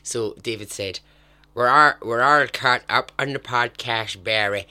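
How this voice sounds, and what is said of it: Put-on Irish accent. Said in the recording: “I should really give them an Irish accent.”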